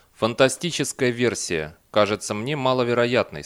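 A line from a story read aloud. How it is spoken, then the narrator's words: Plain. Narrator (Russian): сказал он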